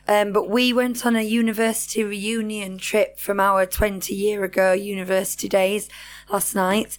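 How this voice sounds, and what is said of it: Slightly hoarse voice. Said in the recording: “I'm sorry that my voice is a little hoarse ... I was shouting a lot last night, and now I can't talk”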